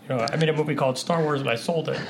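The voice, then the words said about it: George Lucas impression, scratchy throat. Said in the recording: “I do a much better impression when my throat's not scratchy ... somewhere between Ray Romano, George Lucas”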